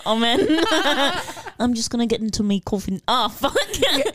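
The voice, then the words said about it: Put-on English accent. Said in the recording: “now you're English.”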